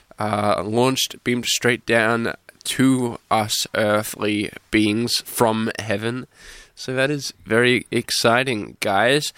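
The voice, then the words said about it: Voice affected by recent illness. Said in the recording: “forgive my voice this week. I am just recovering from a little bit of sickness”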